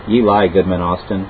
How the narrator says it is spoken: said I

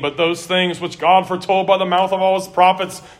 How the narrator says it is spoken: said Peter

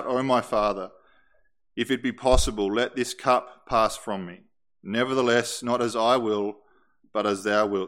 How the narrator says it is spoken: So great was the weight of that pressed down upon him, that he cried out

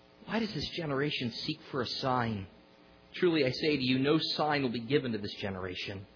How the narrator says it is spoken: Sighing deeply in his spirit, he said

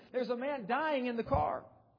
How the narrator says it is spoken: screamed at them, begging for help, and yelled and screamed and continued on telling them

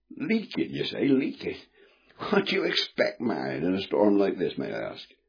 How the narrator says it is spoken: snapped

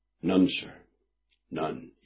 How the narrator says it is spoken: said quietly

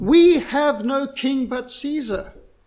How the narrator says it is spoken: they cried

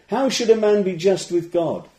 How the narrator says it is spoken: cried out Job

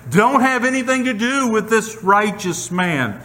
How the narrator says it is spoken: Pilate's wife, she's even screaming

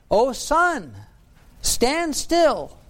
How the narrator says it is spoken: Joshua, when he was fighting and the day was growing long, he cried out

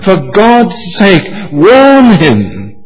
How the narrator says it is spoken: someone was so moved from the crowd that instinctively the person called out

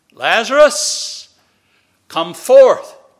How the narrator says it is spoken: Jesus cried with a loud voice

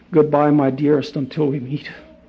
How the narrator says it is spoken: Michael called after her softly

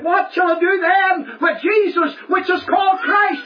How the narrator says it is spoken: Pilate stood before the crowd and he cried out

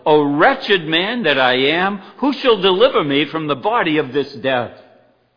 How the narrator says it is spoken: Paul became so frustrated that he cried out

